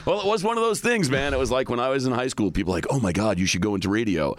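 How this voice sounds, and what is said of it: Deep polished radio voice. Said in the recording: “you're born with a radio voice”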